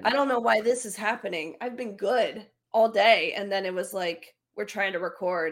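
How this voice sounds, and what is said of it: Strained, fading voice, sounds sick. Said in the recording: “My voice is like leaving me now all of a sudden... you sound a little sick, girl... my voice is like, bye”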